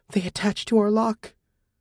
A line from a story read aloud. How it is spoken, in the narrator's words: She whispered